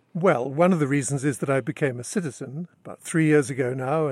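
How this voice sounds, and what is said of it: British accent. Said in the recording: “you have a British accent. You're originally from London.”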